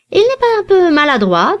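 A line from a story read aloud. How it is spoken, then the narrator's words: Plain question. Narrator (French): demanda le gentilhomme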